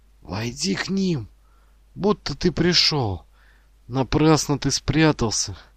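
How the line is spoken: Embarrassed unhappy whisper. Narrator (Russian): Ермак, смущенный и несчастный, шепнул Санди на ухо

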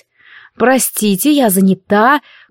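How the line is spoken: Grumbled curtly. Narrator (Russian): буркнула я

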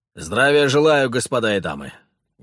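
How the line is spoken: Barked loudly. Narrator (Russian): гаркнул соратник

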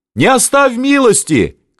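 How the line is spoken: Scattered shouting crowd. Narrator (Russian): кричали в разброд

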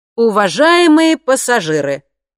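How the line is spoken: Cheerful and loud. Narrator (Russian): сказал он весело и громко

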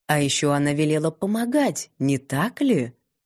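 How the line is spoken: Insinuating question. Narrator (Russian): вкрадчиво уточнил мэтр Циольф

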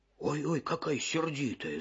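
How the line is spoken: Grumbling. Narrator (Russian): заворчал волк

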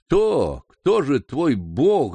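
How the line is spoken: Stammering. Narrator (Russian): запинаясь, наконец, проговорил ростовщик

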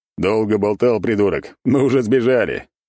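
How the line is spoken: Laughing loudly. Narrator (Russian): Теперь я хохотал

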